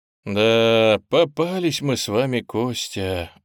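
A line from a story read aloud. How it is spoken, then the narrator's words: Sighing. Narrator (Russian): вздохнул я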